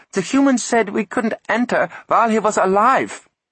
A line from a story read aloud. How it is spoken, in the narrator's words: squeaked Cumulus